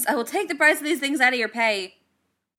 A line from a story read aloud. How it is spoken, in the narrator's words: He yelled after the bot